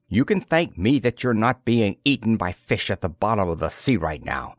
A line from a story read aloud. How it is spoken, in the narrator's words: snapped Karun